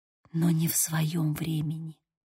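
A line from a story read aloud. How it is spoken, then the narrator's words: Whisper. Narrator (Russian): прошептала я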